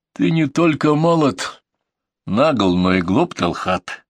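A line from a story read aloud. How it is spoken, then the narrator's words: Cold mocking chuckle. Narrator (Russian): холодно усмехнулся наставник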